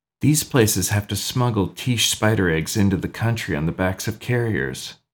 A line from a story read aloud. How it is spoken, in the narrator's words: Miss Merriweather whispered